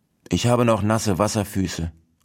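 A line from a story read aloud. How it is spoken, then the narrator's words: Plain answer. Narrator (German): antwortete Monsieur Hase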